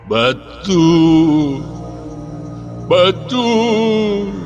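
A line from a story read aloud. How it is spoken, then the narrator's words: Sudden pained moan. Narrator (Russian): Вдруг застонал хан, и лицо его исказило гримаса боли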